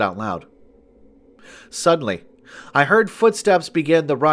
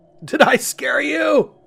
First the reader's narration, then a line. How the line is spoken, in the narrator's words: asked as he began to laugh